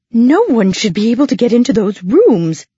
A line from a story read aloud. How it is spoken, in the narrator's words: exclaimed the matron